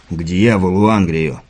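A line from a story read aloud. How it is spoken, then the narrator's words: Hateful growl. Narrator (Russian): с ненавистью прорычал Кевин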